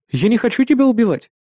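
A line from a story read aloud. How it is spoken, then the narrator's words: Plain. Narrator (Russian): сказал я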